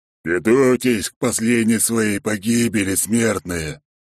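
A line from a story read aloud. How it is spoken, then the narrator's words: Creature's muffled growl. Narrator (Russian): глухо прорычало существо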